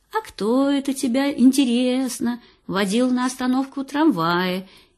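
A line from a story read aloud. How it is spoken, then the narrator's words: Even more affectionate. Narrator (Russian): интересуется еще более ласково мать-королева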